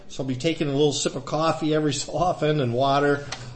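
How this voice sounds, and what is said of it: Slightly scratchy voice. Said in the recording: “My voice is a little bit scratchy ... a little bit of allergies going on there”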